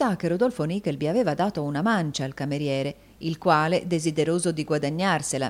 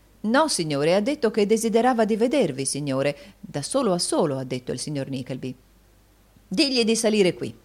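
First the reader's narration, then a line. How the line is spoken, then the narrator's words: Baronet's calling exclamation. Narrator (Italian): esclamò il baronetto Malberry richiamando il cameriere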